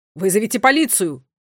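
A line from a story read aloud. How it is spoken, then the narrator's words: Shouted. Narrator (Russian): крикнул один из охранников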